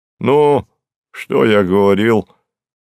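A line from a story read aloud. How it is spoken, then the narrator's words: Delighted exclamation. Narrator (Russian): с восторгом воскликнул Горький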